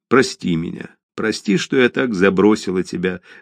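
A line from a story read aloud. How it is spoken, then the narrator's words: Tearful speech. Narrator (Russian): заплакав, сказала она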